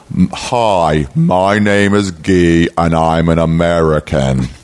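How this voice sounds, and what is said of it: Thick German accent attempting American. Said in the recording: “he tried to do an American accent... he had a thick German accent”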